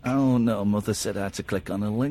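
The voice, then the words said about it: Alan Bennett impression. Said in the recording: “That's not a Scottish accent. ... he's going like Alan Bennett now.”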